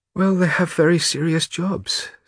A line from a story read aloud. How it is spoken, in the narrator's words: said Maria with a sigh